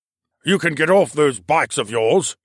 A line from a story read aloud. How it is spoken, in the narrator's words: the mustached man snapped